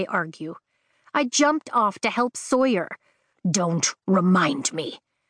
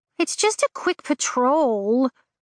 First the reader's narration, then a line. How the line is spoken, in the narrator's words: Andarna whines